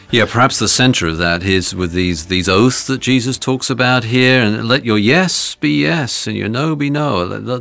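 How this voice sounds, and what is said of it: British accent. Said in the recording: “I love the way you say gobbledygook with a British accent.”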